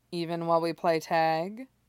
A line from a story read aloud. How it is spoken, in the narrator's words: Orochimaru asks dryly